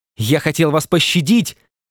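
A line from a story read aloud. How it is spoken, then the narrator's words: Hateful shout. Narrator (Russian): с ненавистью закричал он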